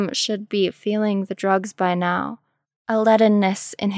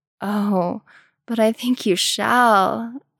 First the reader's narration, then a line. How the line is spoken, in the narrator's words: Ozorn purred